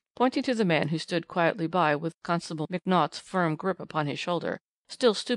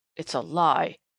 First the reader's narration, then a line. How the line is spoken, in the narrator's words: here interrupted the man, hoarsely